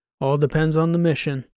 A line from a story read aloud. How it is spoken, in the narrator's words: I said